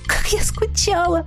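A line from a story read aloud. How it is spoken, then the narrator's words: Speaking through tears. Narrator (Russian): Сквозь слезы говорила та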